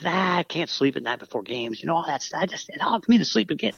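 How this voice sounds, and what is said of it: Imitates another person's voice. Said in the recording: “pretty good Terry Bradshaw impression”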